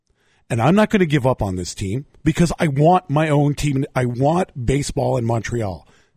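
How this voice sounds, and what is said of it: Strained, hoarse, failing voice. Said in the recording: “I'm losing my voice ... They could tell I'm losing my voice”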